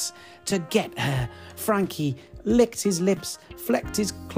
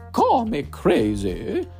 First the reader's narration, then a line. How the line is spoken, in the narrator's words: said, and her voice has suddenly changed